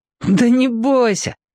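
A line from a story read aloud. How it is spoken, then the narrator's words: Laughing. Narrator (Russian): посмеялся Сушкин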